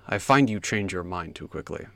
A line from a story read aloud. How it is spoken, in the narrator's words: Lung rumbled